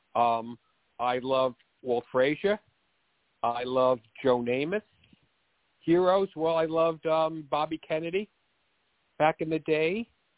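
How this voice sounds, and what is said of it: Bronx accent. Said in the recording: “I grew up in the Bronx, which is why I talk like this... This is a real Bronx accent.”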